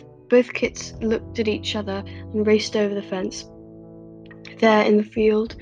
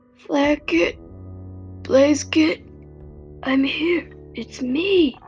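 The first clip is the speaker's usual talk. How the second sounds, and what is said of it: Hoarse, croaking voice. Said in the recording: “the familiar voice croaked hoarsely”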